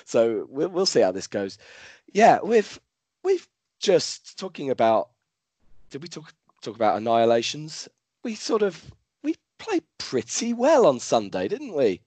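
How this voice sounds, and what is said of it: Hoarse, fading voice. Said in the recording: “I'm slightly losing my voice, which you might be able to tell”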